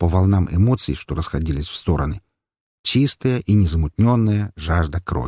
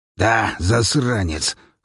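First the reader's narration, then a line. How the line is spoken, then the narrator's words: Hoarse, strained, pained. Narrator (Russian): хрипло выдавил, держась за промежность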